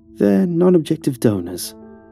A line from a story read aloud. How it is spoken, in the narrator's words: Neb said, in a disturbingly nonchalant tone